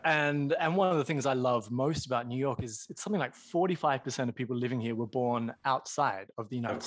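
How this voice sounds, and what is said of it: Australian accent. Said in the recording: “people probably can tell from my accent, not from around these parts. I grew up in Australia”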